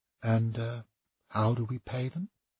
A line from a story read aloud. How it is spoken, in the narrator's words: Kilbert turned his back on the men and whispered